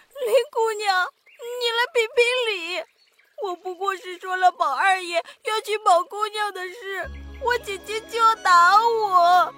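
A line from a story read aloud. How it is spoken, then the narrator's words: Crying maid. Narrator (Chinese): 那个丫鬟抬头见是黛玉，就哭着说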